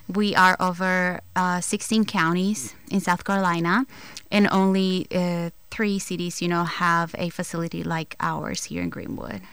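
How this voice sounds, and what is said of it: Non-American accent. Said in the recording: “now that is not an American accent. Where are you from, Italy? ... I am from El Salvador.”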